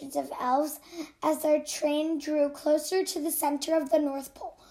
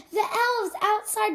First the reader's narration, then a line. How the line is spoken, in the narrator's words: shouted one of the children